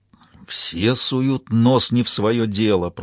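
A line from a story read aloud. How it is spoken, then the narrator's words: Old man grumbling. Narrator (Russian): продолжал ворчать старик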